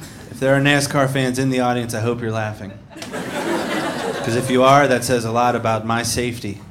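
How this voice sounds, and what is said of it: Usual voice. Nothing is said of it.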